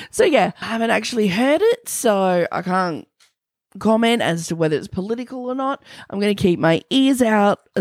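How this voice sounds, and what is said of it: Hoarse, weakened voice. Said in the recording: “My voice is terrible... As soon as I can get a listen to the song and I have a voice... thanks for putting up with me in my weakened condition”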